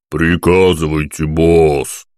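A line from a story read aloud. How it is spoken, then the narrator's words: Booming big man, trumpet-like. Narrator (Russian): как труба прогудел здоровяк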